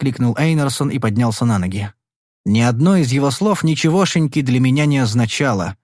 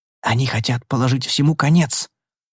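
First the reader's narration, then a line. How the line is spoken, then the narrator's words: Whispered in ear. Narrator (Russian): прошептал мне на ухо Грантхэм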